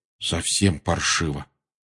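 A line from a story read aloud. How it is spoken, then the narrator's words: Muffled voice. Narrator (Russian): глухим голосом закончил Рон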